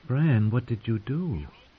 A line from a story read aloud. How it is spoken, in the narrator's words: Mira whispered